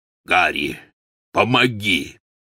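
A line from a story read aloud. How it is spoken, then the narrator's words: Hoarse call. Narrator (Russian): хрипло позвал Гаррит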